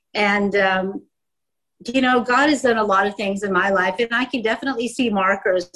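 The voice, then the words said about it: American English accent. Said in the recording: “I grew up in the States, as you can tell by my accent.”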